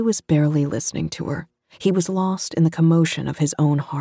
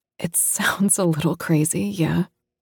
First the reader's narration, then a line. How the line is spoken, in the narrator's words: Lara said, laughing